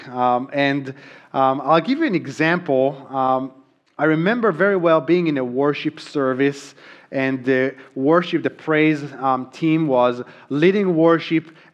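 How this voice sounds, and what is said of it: Thick foreign accent in English. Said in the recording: “If you think my accent now is thick”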